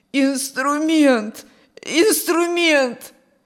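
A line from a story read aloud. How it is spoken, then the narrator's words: Hoarse rasping. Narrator (Russian): сипел Петр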